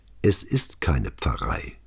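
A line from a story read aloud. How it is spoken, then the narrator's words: Calm. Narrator (German): sagte Brunetti ruhig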